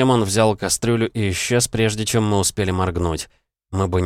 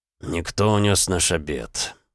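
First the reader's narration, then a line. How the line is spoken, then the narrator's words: Father sighing. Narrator (Russian): вздохнул отец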